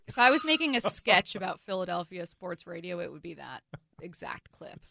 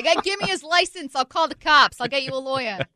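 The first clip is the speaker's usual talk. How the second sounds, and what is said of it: Weak nondescript East Coast accent. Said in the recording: “I can't do an accent for anything. That's my random nondescript East Coast accent.”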